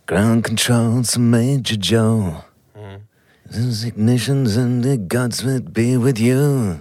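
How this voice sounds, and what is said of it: Sung imitation of another person's voice. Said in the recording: “It's quite a good impression, to be honest.”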